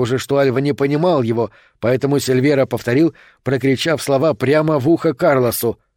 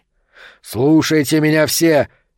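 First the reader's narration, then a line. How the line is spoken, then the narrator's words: Shout. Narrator (Russian): крикнул Сильвера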